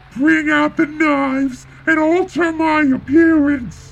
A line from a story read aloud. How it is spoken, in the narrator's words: he screamed, kicking his stubby legs in frustration